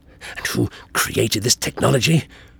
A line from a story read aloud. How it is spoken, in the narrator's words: The Doctor hissed, trying hard but completely failing to keep his anger under control